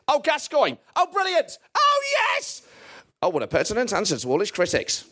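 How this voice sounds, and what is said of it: Impression of John Motson commentating. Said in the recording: “your Motson impression”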